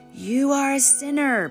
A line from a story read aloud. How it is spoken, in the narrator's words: bellowed Mordecai Ham